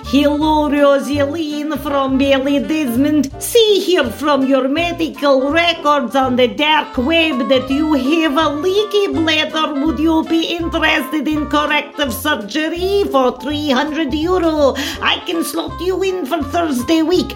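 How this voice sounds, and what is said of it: Put-on Russian accent. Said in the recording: “a Russian lad ... a foreigner with a sexy accent”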